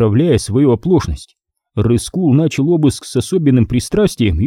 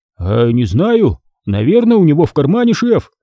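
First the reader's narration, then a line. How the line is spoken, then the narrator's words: Gleeful, grinning. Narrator (Russian): радостно оскалился телохранитель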